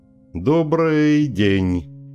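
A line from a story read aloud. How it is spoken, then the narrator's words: Drawling. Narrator (Russian): протянул он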